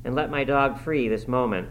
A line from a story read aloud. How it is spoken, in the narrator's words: she exclaimed